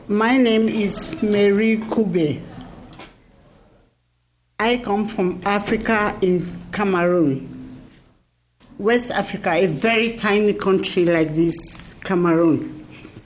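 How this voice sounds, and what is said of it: Speaks with a foreign accent. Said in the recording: “I have to apologize for my accent”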